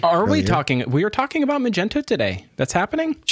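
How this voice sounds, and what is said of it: Briefly Irish-sounding accent. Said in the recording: “You sounded like an Irishman real quick there.”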